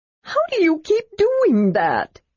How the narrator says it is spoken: Tasselhoff wailed

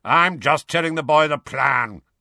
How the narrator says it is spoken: growled Moody

